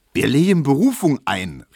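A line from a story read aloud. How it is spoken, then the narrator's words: Calling out again. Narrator (German): rief Tesch wieder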